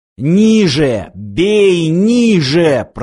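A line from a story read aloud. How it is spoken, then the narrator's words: Growled. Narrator (Russian): прорычал снайпер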